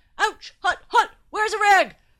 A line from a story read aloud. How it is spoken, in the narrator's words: howled